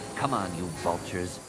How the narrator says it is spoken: Anakin muttered

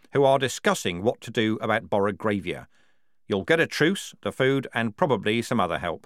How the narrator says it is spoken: his voice went flat to say those words

